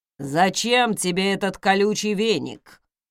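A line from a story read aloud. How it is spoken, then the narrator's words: Grumbling butler. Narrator (Russian): проворчал дворецкий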